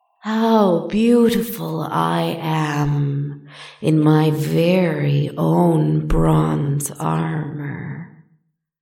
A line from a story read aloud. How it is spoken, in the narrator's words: purred admiringly